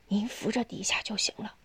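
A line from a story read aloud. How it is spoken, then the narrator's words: Quiet. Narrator (Chinese): 佩东小声对父亲说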